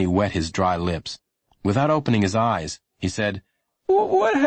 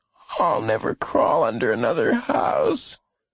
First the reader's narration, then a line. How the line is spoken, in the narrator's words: Lenny said, moaning a little as they went over a bump